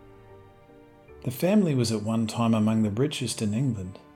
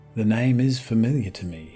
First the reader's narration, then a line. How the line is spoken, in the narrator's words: he said